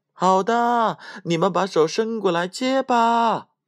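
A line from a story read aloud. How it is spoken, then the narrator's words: Loud shout. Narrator (Chinese): 汤姆又敞开了嗓门叫道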